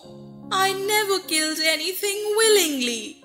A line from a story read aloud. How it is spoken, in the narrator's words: she sobbed